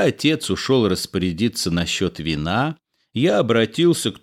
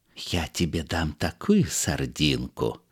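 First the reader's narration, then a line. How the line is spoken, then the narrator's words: Whisper. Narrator (Russian): прошептал купец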